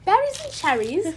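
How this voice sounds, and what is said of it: Put-on British accent. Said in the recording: “Why did I say that with a British accent?”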